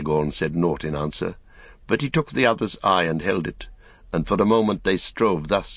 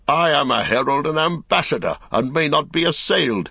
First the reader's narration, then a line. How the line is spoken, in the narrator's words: he cried